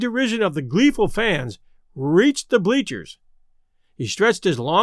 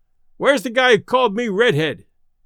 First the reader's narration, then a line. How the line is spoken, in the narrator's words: he yelled